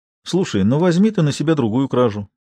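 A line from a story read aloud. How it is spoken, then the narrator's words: Quiet, puffing a cigarette. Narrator (Russian): предложил он негромко, пыхтя папиросой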